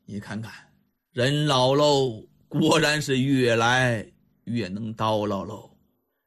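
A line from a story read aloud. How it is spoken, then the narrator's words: Sighing. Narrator (Chinese): 狄仁杰又是叹息一声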